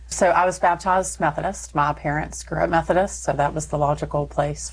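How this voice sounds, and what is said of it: Texas accent. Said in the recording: “people probably can guess some of the accent that they're going to hear in a moment ... you're going to hear a little Texas”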